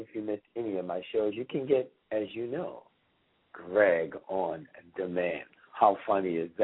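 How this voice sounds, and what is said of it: Usual voice. Nothing is said of it.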